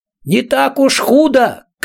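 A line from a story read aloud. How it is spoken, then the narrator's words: Shouted from below. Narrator (Russian): крикнул снизу Роб всякограб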